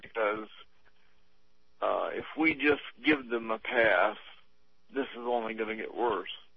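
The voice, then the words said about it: Strained, fading voice. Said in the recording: “I'm losing my voice anyway. Struggling to be able to talk to you as long as I have”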